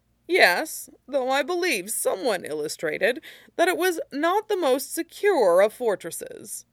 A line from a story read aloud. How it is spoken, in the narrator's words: Mushi chuckled